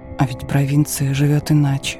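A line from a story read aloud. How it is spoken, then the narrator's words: Muttering. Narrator (Russian): пробормотал он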